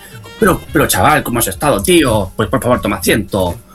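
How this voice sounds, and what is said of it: Put-on Spanish (Spain) accent. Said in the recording (Spanish): “¿Qué tal mi acento español? ... Perfecto. Pero es como de Pamplona.”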